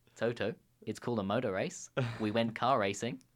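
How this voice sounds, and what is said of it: Bad put-on Australian accent. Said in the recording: “In my very bad Australian accent there.”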